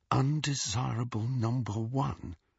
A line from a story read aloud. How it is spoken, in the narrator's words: Harry muttered under his breath